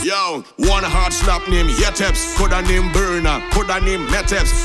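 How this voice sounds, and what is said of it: Trinidadian dialect, patois. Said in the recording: “I coming with me Trinilingo ... you mightn't understand me Trinilingo ... I ain't changing my dialect, my patois”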